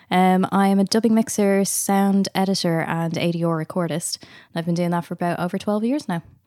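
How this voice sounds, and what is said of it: Irish accent. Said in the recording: “I am obviously Irish. Hopefully people can tell from the accent.”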